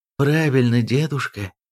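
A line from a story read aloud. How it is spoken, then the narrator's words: Soothing tone, stout granddaughter. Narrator (Russian): успокоительным тоном сказала дородная внучка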